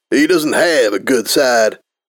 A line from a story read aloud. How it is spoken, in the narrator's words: Flair scoffed at the very idea